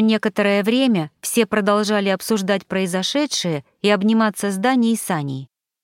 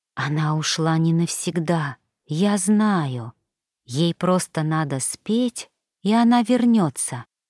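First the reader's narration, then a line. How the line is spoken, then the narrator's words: Whisper, moose. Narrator (Russian): прошептал лось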